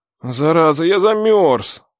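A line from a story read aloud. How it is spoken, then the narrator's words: Grumbling. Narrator (Russian): проворчал я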